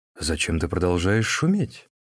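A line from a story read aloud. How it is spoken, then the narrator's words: Monk's quiet question. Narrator (Russian): Тогда монах тихонько спросил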